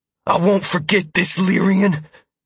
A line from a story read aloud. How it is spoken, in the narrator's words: Mazder growled